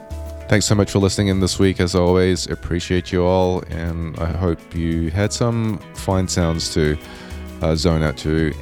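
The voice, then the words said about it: Slightly off, sick-sounding voice. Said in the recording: “I am getting sick, so if my voice sounds a little off today”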